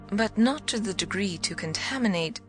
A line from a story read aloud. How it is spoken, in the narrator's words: I eagerly brought out